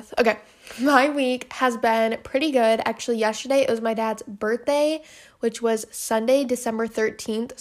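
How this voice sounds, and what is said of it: Out of breath while talking. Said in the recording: “whenever I talk a lot, I get really out of breath ... I get really out of breath ... I'm already out of breath.”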